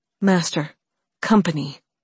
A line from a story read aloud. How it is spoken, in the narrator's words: Valeria said, her voice tight